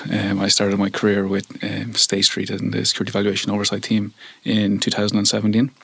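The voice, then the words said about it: Irish accent. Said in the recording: “as you can probably tell from my accent, I'm originally from Ireland.”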